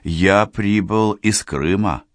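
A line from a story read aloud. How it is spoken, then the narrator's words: Forced calm. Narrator (Russian): по возможности спокойно начал Борис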